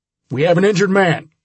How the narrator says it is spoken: shouted one of the troopers

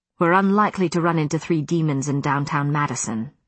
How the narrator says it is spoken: Matthew said dryly

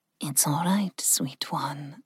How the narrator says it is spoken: Ling murmured

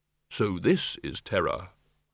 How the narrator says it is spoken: the innermost tiny voice which said quite calmly

